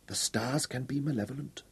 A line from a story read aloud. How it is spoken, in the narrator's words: whispered